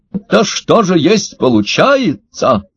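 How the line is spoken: Monster exclaiming, alien accent. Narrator (Russian): воскликнул один из трехногих монстров с явным неземным акцентом

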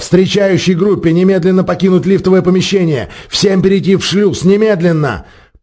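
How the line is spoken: Shouting. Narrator (Russian): закричал

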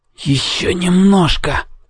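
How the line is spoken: Boy whispering through teeth. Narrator (Russian): прошептал мальчик сквозь зубы

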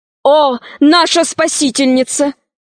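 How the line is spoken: Prince exclaiming. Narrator (Russian): воскликнул принц

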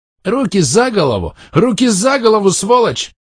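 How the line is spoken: Yelling. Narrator (Russian): Заорал он

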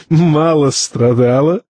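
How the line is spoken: Hysterical laugh. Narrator (Russian): истерически хохотнул Тарталья

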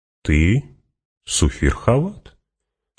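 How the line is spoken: Calm reminder. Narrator (Russian): спокойно напомнил Фриман

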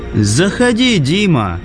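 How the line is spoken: Loud invitation. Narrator (Russian): пригласил Лайк громко

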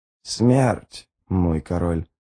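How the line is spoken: Hoarse croak. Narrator (Russian): прохрипела мать Гандринг

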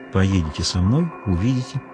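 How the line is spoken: Quiet. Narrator (Russian): тихо сказала Веда

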